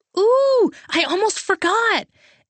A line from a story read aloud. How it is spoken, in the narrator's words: Emma practically screamed